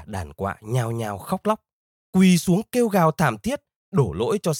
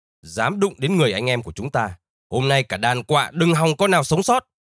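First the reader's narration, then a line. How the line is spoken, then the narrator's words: Shouting. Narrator (Vietnamese): Anh hai chim mừng quát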